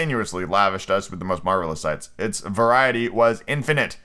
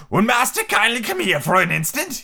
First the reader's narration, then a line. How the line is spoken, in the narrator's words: He said to me in an odd voice